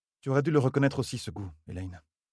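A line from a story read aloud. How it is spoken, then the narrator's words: Muttering old woman. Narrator (French): marmonna l'ancienne sage-dame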